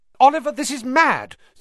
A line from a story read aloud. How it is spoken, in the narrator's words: said Alicia Spinett angrily